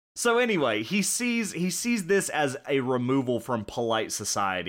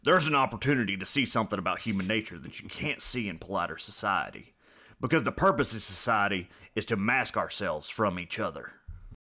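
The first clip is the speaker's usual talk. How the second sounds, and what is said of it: Imitates another person's voice. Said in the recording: “Why do I keep doing Alex Jones? ... that is not what John McAfee sounds like ... That was a horrible impression.”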